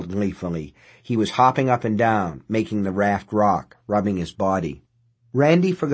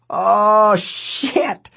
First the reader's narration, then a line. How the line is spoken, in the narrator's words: he yelled, laughing, shivering